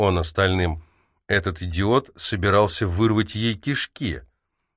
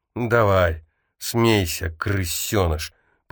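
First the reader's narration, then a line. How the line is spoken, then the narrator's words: Groan. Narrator (Russian): простонала Фериус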